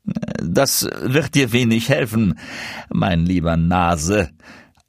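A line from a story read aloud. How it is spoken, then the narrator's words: Stranger answering, laughing. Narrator (German): antwortete der Fremde mit Lachen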